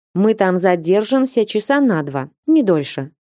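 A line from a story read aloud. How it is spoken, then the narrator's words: Plain. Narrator (Russian): ответил ледяной маг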